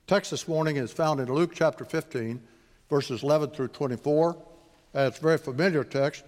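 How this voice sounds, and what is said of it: Heavy West Texas accent. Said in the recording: “I also have a very heavy West Texas accent”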